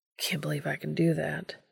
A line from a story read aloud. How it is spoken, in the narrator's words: he says softly